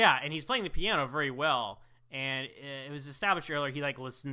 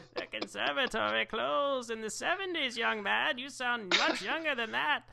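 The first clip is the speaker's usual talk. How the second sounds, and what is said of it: Put-on old lady voice. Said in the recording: “This is my old lady voice.”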